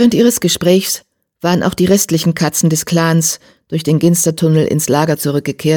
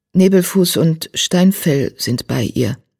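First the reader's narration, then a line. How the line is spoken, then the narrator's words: Hesitant addition. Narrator (German): Zögernd fügte hinzu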